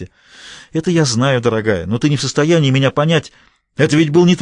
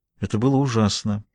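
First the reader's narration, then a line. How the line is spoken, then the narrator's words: Quiet. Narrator (Russian): сказала тихо София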